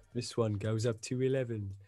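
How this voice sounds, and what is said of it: Bad put-on Midlands accent. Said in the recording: “in a really bad Midlands accent.”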